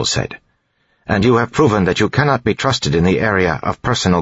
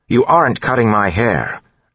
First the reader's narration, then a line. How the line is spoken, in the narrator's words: Elland said firmly